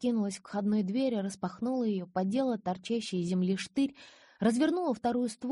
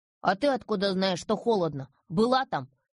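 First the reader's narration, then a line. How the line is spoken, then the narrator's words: Grumbling. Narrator (Russian): Пробурчал Васька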